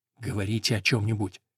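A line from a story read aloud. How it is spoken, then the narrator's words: Hurried whisper. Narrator (Russian): торопливо шепнул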